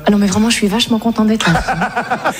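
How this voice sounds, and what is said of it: Put-on Parisian French accent, done well. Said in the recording (French): “je parle un peu à la parisienne comme ça... C'est pas mal, tu le fais bien.”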